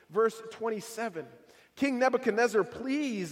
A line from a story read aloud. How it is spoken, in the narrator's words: Daniel pleaded